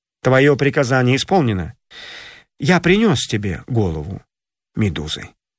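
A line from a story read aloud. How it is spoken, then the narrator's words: Calm. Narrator (Russian): спокойно сказал царю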